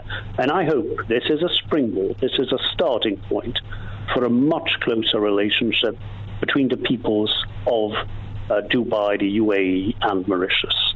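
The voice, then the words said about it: British-sounding accent. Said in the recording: “got a better British accent than myself”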